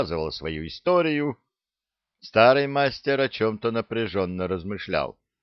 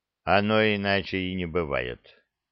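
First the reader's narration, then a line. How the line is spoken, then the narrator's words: Grumbling. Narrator (Russian): проворчал Киртал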